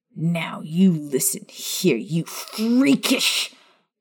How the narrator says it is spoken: Maya snarled

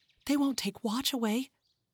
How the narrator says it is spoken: she whispered to Henry, her breath almost gone

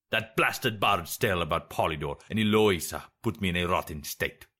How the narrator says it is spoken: he growled

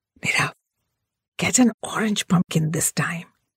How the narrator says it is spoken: I whispered

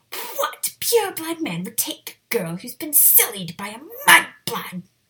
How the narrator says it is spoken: Walburga screeched

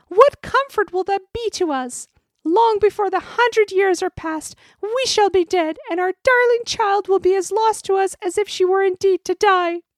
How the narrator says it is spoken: cried the queen

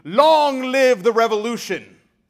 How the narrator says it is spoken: They were in high spirits, shouting lustily

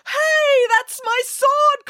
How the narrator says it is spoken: cried

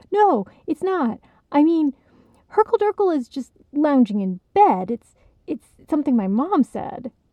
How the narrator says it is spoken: hearing the way that might sound, he stammered

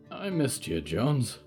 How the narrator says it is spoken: he said quietly

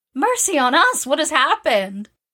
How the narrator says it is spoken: cried Jo, staring about her in dismay

